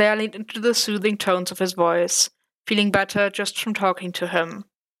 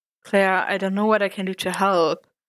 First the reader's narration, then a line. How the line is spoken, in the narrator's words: said Matt, his tone doubtful